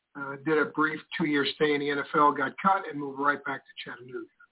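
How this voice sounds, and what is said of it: New York accent. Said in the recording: “I'm a New Yorker, as you can tell by my accent”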